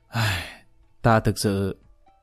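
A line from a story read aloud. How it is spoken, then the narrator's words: Helpless sigh. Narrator (Vietnamese): Lý Kỳ thật không biết nói gì, thở dài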